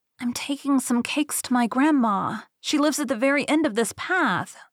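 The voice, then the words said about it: Very small, timid voice. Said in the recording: “in a very small voice”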